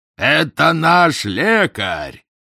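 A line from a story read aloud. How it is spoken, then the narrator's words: Loud announcement. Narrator (Russian): громко объявил Кербиан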